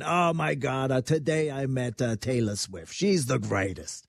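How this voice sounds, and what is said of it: Imitates another person's voice. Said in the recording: “That's a good impersonation.”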